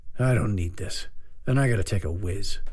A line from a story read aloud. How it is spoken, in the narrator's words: The judge muttered